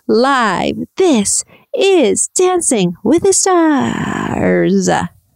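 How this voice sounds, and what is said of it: Spooky TV announcer voiceover. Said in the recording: “Tom's spooky voiceover ... Did I do a good imitation? Probably not.”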